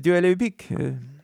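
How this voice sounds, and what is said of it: Put-on French accent. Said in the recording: “I'm developing a French accent.”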